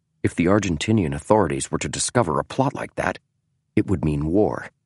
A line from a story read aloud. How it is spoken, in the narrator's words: Bonfield said softly